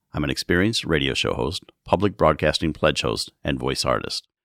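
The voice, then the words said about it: Deep resonant General American male voice. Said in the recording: “deeply resonant, general American standard accent male voice ... warm, conversational yet authoritative quality”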